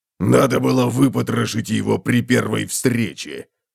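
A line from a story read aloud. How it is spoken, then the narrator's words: Grumbling. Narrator (Russian): проворчал он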